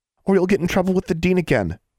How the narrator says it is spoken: Anna squeaked

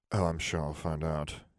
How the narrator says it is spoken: Harry muttered

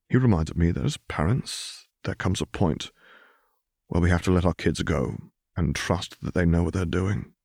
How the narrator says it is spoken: he corrected gently

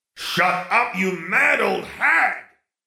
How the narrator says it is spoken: Sirius roared

